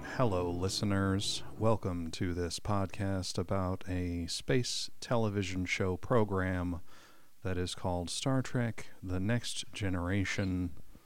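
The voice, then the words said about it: Mock public radio announcer voice. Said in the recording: “That's my NPR. ... That's my NPR voice.”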